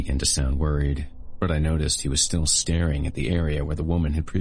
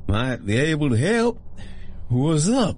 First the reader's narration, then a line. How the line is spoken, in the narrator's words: The man's speech was slurring, most likely from a solid dose of his medicine, or lack thereof